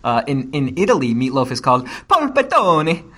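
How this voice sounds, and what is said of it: Put-on Italian accent. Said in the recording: “My Italian accent is very practiced.”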